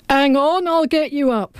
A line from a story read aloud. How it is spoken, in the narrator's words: hollered McKee